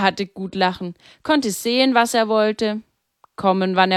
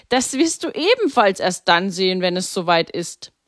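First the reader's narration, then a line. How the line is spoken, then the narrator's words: Laughing. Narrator (German): lachte Pater Maximilian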